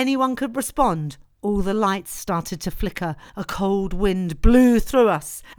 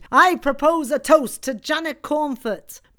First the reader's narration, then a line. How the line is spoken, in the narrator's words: Angus shouted